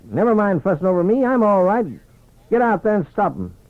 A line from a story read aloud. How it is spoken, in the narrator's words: he barked